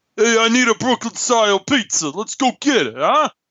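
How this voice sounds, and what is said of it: Thick New York Italian accent. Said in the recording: “he's got the thick New York accent ... his voice is so Italian”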